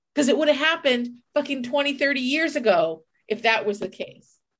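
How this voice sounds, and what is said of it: Angry yelling voice. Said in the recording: “I'm sorry for yelling.”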